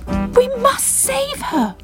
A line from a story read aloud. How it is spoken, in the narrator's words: cried